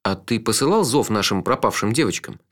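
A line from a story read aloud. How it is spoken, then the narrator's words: Plain. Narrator (Russian): спросил я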